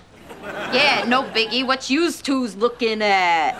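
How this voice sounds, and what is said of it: Put-on accent. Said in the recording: “That was a really good accent.”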